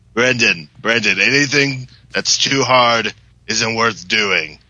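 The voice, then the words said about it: Imitates another person's voice. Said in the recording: “my John Benjamin impersonation.”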